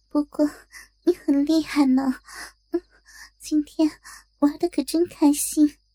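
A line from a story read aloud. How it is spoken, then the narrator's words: Flirtatious giggle. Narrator (Chinese): 小红媚笑着补上了一句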